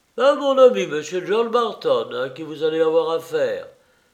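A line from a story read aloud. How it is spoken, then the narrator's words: Exclaimed again. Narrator (French): s'écria encore Harrison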